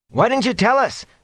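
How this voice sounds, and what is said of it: Aggrieved voice. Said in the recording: “in an aggrieved voice”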